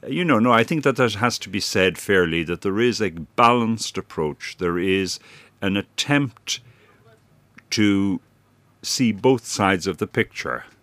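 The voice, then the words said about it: Non-English accent. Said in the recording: “here I am an outsider to some extent, you'll have guessed because of my accent”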